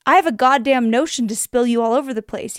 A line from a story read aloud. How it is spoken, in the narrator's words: he growled